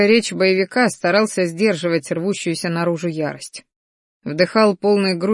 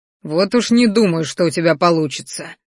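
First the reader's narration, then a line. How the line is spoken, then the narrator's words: Growl. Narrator (Russian): рыкнул я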